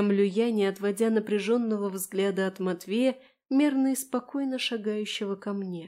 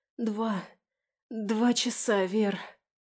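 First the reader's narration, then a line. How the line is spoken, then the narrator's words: Hurried hoarse rasp. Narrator (Russian): Успеваю прохрипеть недоумевающей подруге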